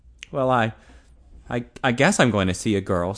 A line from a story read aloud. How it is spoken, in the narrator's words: stammered Ted